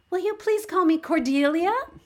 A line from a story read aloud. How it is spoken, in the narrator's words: She said eagerly